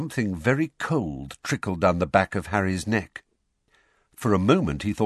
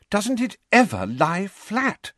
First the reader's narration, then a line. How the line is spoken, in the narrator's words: she said desperately